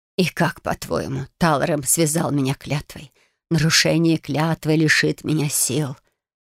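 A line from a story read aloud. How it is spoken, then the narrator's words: Hoarse. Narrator (Russian): произнесла она хрипло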